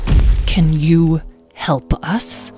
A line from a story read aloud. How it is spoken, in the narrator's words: He asked through gritted teeth